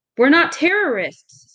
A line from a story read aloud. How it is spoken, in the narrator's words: someone cried